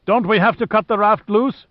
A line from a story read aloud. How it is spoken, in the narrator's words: Hui shouted above the wind